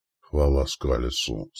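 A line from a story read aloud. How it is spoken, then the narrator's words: Relieved sigh. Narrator (Russian): с облегчением вздохнул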